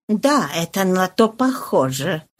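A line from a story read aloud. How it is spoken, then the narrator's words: Muttered. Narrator (Russian): пробормотал Фошри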